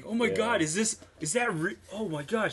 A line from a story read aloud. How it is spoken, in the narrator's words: I remember yelling, saying